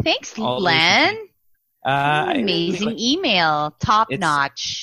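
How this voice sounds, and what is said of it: Usual voice. Nothing is said of it.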